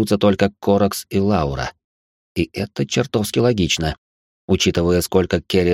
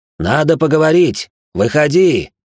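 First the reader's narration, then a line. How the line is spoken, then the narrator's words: Shouting into emptiness. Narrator (Russian): закричал в пустоту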